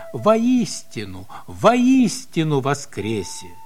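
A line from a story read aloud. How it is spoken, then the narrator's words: Joyful. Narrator (Russian): тот радостно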